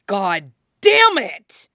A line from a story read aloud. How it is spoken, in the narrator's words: He shouted